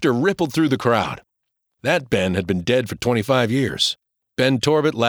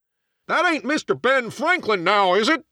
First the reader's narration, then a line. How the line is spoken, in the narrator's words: cried someone from the shore